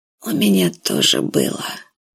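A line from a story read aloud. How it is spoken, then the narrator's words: Whisper. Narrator (Russian): сказал Ковидж шепотом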